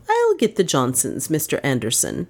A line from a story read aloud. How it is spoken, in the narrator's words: she said firmly